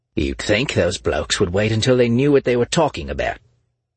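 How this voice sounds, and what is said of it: Australian accent. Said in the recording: “a man with an Australian accent complained”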